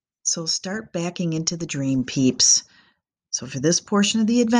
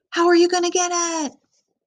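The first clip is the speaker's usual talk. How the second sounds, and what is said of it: Shouting like a cheerleader. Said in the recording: “first I shout ... I'm shouting again”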